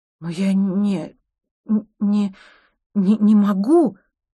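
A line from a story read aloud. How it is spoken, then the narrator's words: Stammering mumble. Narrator (Russian): запинаясь, забормотала Юль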